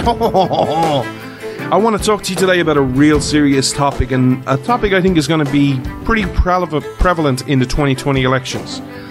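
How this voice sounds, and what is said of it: Irish accent. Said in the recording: “This Irish man ... the show where you come for the accents”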